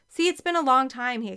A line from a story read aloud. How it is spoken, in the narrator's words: he exclaimed